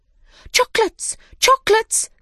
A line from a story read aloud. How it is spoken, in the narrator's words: they cried